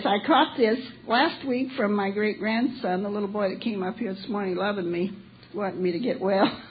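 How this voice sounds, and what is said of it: Squeaky, sick-sounding voice. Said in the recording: “my squeaky voice”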